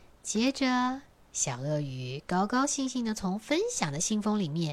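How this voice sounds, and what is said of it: Usual voice. Nothing is said of it.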